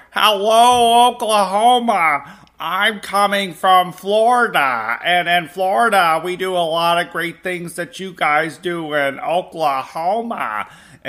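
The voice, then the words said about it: Imitates another person's voice. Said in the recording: “my DeSantis impersonation”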